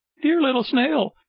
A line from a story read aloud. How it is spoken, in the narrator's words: cried Pinocchio from the street